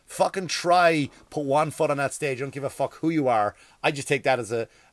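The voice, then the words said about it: Strong Irish accent. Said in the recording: “the Irish accent came out there”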